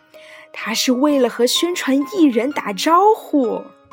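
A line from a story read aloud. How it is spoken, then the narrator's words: Shouted. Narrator (Chinese): 老师的声音像是喊出来的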